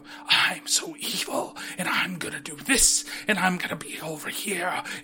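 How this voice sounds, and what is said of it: Wispy, whispery overacted voice. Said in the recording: “overacting, like, fucking wispy-ass voice ... my voice is gonna sound like I'm whispering at you, though I am angry”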